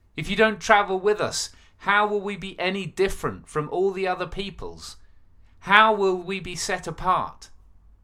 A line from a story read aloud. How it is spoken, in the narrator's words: Moses pleaded